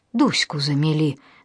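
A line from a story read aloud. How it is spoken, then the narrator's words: Breathless exhale. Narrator (Russian): выдохнул Геша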